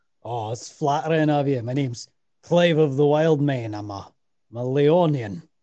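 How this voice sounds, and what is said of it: Character voice with put-on accent. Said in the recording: “This accent, I love it so much.”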